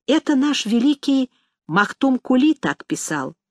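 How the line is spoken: Quiet explanation. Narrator (Russian): пояснил мне тихонько Амет

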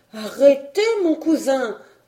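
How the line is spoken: Exclaimed. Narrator (French): s'écria Marguerite

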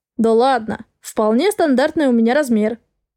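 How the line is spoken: Amused snort. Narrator (Russian): хмыкнул Гордей Александрович

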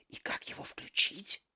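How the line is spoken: Whispered question. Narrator (Russian): шепотом спросила Алиса

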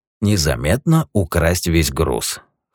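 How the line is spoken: Scoffing. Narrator (Russian): хмыкнул Юджин

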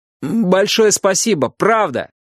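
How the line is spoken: Calling after. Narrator (Russian): крикнул я ему вслед

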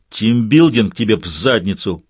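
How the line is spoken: Angry growl, short man. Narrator (Russian): прорычал рассерженный коротышка

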